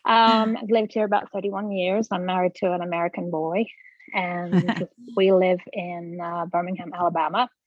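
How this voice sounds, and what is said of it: English accent. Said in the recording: “I'm originally from England ... We never would have guessed ... Just be putting on the accent”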